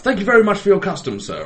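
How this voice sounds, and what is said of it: Posh Oxbridge public schoolboy voice. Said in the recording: “his accent just became more and more English ... he's gone from the random Polish bloke to, like, sort of Oxbridge public schoolboy style”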